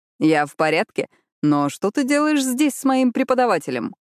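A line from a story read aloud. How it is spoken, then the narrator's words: Laughing. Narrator (Russian): Он рассмеялся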